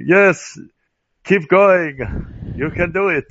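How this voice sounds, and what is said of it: Imitates a trainer's weird accent. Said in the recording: “He was like, had this weird accent.”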